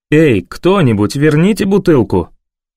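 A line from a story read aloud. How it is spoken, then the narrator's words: Polite yet sharp. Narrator (Russian): Вежливо и в то же время резко выговаривает Лукас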